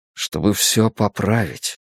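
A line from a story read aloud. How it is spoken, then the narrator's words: Quiet. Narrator (Russian): тихо сказал я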